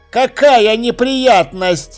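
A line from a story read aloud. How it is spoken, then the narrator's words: Snorting. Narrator (Russian): хмыкнул Чудакулли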